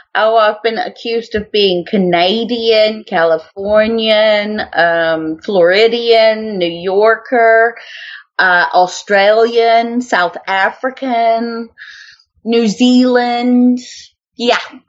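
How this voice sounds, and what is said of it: American with picked-up British accent. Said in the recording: “You picked up the British accent. You sound like Mary Poppins.”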